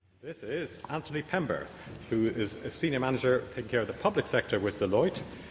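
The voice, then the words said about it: Irish accent. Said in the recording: “you're listening to an Irish accent at the moment.”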